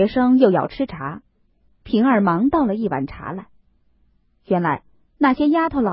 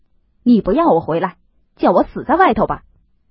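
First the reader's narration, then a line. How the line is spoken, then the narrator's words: Shouting. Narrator (Chinese): 贾琏嚷道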